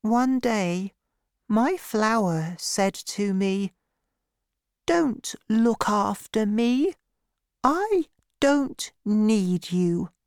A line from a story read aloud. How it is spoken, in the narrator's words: the little prince told me very sadly